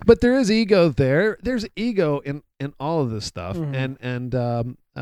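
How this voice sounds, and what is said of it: Usual voice. Nothing is said of it.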